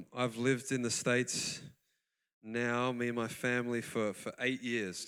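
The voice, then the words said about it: Noticeable non-American accent. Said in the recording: “you can probably hear I do have a very familiar accent to you”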